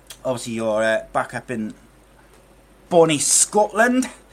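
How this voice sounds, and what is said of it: Bad put-on Scottish accent. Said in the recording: “Terrible Scottish accent ... see if I can improve my Scottish accent”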